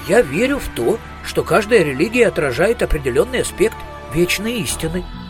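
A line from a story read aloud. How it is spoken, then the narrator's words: Plain. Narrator (Russian): ответил Маркоу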